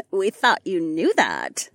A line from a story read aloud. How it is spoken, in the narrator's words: Marina giggled